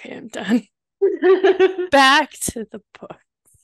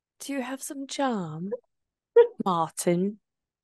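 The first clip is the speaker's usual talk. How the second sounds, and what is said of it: Weak attempt at English accent. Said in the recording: “England would be like, Martin. ... I can't do accents.”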